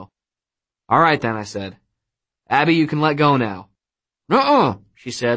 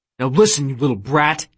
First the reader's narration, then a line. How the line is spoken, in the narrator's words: he snapped at my sister